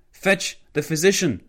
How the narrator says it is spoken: House yelled at Flanagan

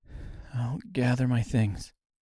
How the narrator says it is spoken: she said quietly

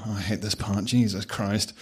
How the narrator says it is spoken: he muttered

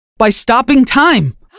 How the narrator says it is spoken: shouted in excitement

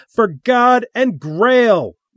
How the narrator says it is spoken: Little Elvis shouted

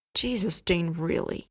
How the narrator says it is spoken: He said, trying to keep the rasp from his voice

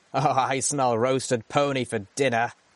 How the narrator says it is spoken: snarled the slaver

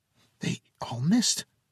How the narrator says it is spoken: the boy whispered with amazement

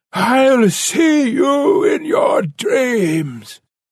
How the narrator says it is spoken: He bellowed in a gurgling voice

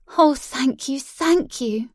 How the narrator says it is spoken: she squealed

